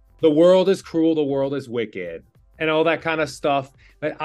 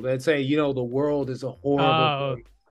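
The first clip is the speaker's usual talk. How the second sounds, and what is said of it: Imitates a character's voice. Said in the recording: “That's a good impression.”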